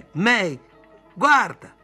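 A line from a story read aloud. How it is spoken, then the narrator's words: Screamed. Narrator (Italian): lei urlò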